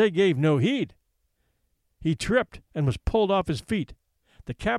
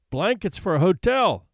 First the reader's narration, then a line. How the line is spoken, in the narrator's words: quoth one of the men who laughed